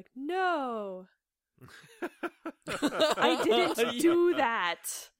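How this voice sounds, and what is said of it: Imitates another person's voice. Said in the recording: “a pretty good impression of her, actually”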